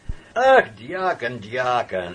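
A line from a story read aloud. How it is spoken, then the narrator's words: Laughing. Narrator (Russian): засмеялся зоолог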